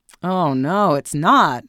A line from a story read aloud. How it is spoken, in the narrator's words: her son groaned